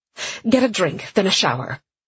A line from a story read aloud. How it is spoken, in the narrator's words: Sienna ordered curtly